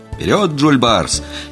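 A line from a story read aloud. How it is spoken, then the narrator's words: Sudden involuntary shout. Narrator (Russian): неожиданно для самого себя выкрикнул я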